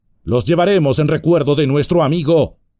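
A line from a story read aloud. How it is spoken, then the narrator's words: Shouted. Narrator (Spanish): gritó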